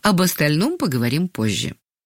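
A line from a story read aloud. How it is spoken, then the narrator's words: Calm. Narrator (Russian): спокойно сказала Ангелина Сергеевна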